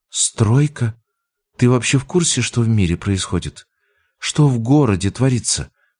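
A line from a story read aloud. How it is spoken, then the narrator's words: Whisper. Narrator (Russian): Понизив голос до шепота, она добавила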